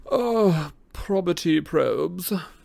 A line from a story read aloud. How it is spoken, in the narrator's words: sighed Travers theatrically